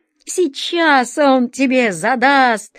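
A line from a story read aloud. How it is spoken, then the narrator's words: Exclamation. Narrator (Russian): воскликнул Паоло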